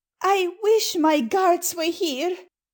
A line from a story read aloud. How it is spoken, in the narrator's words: cried the Queen